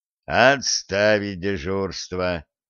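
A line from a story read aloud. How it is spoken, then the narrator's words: Grumbling troll. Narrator (Russian): пробурчал тролль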